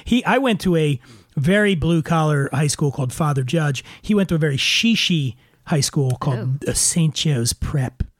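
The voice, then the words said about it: Slight Philadelphia accent. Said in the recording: “my Philly accent ... You have a slight accent. ... It hinders your ability to say the word vodka.”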